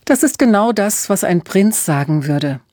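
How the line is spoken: Laughing. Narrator (German): lachte Emma

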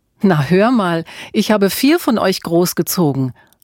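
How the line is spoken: Laughing. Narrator (German): lachte Mutter Auguste

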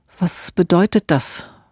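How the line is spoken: Quiet question. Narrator (German): fragte Ilse leise

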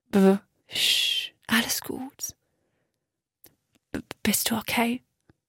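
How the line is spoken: Very faint, weak voice. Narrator (German): Stimme war so schwach, dass die Worte kaum verstehen konnte

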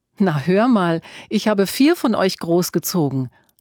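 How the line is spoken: Laughing mother. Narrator (German): lachte Mutter Auguste

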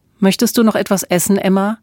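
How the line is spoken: Plain. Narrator (German): fragte Otto Kaiser

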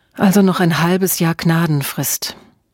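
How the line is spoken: Sighing. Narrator (German): Emma seufzte

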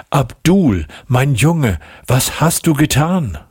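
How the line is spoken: Calling out. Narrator (German): rief sie

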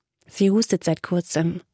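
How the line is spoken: Quiet, trembling voice. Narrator (German): fuhr Kyla leise fort, wobei ihre Stimme zitterte

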